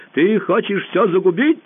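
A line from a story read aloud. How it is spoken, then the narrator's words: Shouting. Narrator (Russian): закричал он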